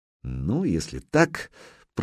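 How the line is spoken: Muttering major. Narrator (Russian): пробормотал майор

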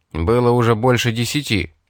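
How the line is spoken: Angry declaration. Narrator (Russian): сердито заявил Кости

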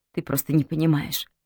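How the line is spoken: Trembling mutter. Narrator (Russian): трясясь, бормотала Маргарет

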